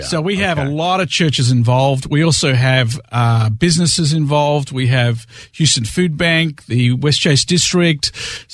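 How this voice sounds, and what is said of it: Australian accent. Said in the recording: “you're not from here ... the accent is Australian”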